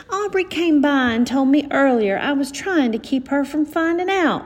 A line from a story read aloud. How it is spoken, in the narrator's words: Mama cried